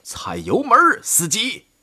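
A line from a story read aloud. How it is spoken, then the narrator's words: Shouting. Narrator (Chinese): 海德里希喊道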